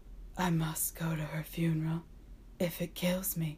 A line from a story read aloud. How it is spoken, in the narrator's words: Howell said sadly